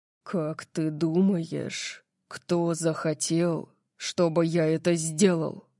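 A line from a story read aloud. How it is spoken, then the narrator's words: Dangerously low voice. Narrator (Russian): спросил он опасно низким голосом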